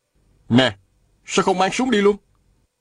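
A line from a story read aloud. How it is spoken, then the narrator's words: Shouting. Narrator (Vietnamese): Viên Thừa Chí la lên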